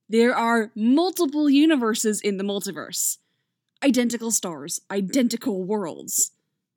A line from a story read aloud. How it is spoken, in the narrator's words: he adds triumphantly